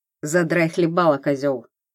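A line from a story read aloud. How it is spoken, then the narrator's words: Cold reply, young woman. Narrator (Russian): холодно ответила девушка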